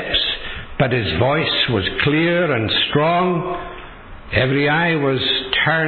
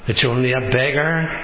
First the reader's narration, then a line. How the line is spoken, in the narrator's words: her servant said